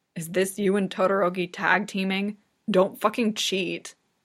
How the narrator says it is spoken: growls

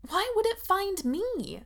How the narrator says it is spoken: she asks desperately

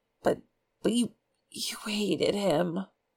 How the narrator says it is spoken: Zheng Cheng whispered

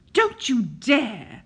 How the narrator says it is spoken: Aziraphale cuts in savagely

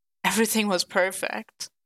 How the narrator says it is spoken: Bucky sighed

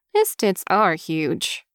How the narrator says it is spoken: Hishika says, nodding solemnly

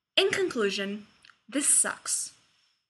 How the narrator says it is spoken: takes a deep breath, leans back, and calmly offers

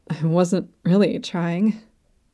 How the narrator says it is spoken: Laios mutters

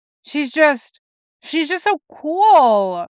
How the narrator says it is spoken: Jason whines

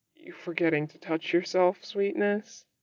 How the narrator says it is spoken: he says shakily

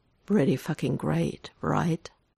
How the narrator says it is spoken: Nate laughs

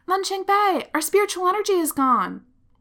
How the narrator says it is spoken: Lan Xingyi yells

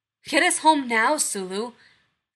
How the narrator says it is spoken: Kirk barks

